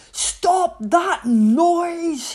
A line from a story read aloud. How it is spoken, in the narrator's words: bellowed